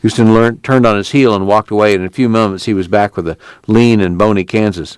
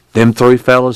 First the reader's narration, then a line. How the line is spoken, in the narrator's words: he said